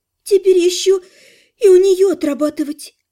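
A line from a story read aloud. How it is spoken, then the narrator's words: Sorrowful sigh. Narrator (Russian): горестно вздохнула Лана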